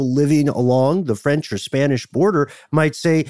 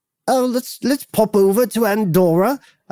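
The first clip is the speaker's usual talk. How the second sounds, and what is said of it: Silly old-fashioned British accent. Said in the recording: “I don't know why they have a British accent... we're doing a British accent that doesn't exist anymore... We're doing a silly bit of a voice that doesn't exist”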